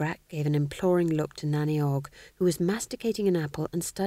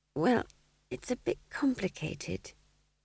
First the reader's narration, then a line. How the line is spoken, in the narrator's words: said McGrat weakly